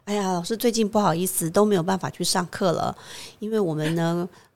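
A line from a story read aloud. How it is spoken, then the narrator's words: Elderly, joking. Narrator (Chinese): 很多年纪比较长的菩萨，常常会开玩笑说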